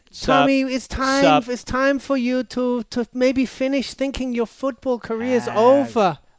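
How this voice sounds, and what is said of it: Attempted Brazilian accent impression. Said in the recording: “I can't do a Brazilian accent... can you try it?... Do Giselle.”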